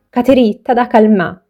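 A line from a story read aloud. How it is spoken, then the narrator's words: Woman's firm exclamation. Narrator (Italian): esclamò la donna con tono fermo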